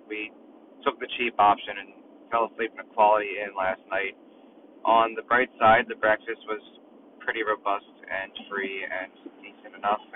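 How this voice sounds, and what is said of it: Strained, not fully recovered voice. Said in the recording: “You can probably hear my voice is still not recovered from screaming my lungs out”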